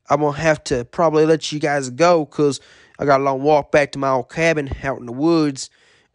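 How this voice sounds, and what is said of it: Country accent. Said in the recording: “that country accent like I do”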